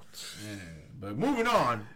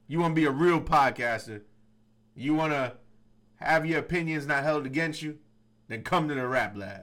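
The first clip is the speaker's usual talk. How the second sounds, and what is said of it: Imitates another person's voice. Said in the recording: “doing the Danny Boy impersonation.”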